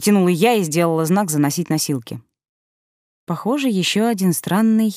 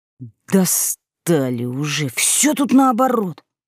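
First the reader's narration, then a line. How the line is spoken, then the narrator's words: Grumbling. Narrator (Russian): проворчал Ванька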